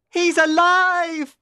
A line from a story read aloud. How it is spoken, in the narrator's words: He screamed